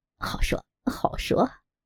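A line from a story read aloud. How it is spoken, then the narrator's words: Beaming, elated. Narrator (Chinese): 尤巴闻言眉开眼笑，飘飘然道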